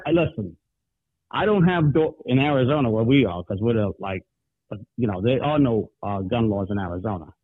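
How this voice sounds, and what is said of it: New York accent. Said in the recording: “you sound like a New Yorker”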